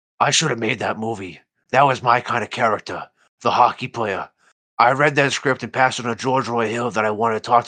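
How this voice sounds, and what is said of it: Imitates another person's voice. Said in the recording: “I'm going to do my best Pacino voice.”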